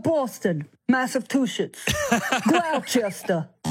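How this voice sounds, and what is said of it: Poor Boston accent, New York gangster-like. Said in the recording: “Boston accents, not one of them. It was kind of more a New York gangster accent than it was Boston.”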